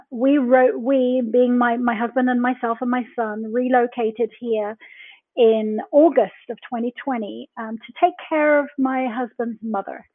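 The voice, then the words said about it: English accent. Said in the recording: “the accent is definitely coming to you from England”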